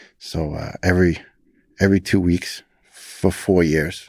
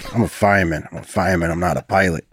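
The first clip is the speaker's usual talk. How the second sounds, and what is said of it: Heavy Brooklyn accent. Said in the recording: “he's got a heavy Brooklyn accent.”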